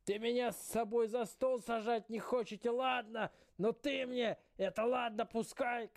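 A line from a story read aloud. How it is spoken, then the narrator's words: Old man shouting. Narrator (Russian): кричал дед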